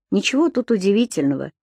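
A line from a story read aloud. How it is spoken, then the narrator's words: Calm explaining. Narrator (Russian): спокойно объяснял Алексей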